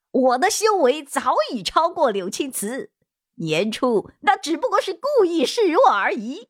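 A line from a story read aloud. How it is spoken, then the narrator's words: Angry retort. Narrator (Chinese): 柳青行面色红白，怒道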